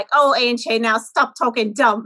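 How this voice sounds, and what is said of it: Pennsylvania Dutch accent. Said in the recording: “so Dutchy ... That's such a good accent.”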